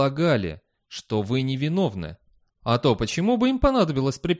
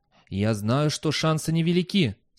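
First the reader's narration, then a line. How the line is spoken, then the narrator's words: Uncertain. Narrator (Russian): сказал Фастольф неуверенно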